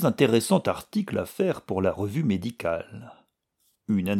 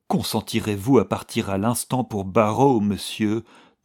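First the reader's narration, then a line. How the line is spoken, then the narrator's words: Pleading. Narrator (French): demanda Valentin d'un ton suppliant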